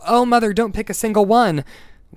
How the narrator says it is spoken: the girl cried out

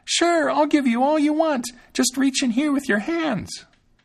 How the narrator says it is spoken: Thumbling screamed as loud as he could

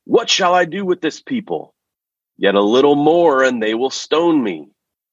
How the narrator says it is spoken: Moses called out to the Lord, saying

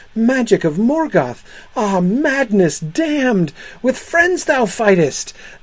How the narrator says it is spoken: Fuilin's son, there stricken with amaze, cried

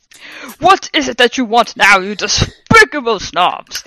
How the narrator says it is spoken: He asked angrily

